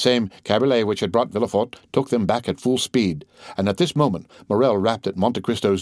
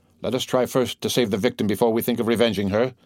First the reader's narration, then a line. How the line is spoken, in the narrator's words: said D'Avigné